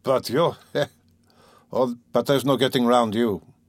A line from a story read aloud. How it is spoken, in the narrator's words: he said, laughing in the frankest way